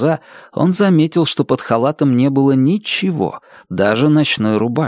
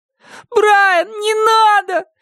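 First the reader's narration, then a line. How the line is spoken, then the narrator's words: Tearful pleading. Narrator (Russian): взмолился Шон со слезами на глазах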